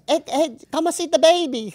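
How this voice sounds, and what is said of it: Put-on Chinese accent. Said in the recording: “It was a Chinese.”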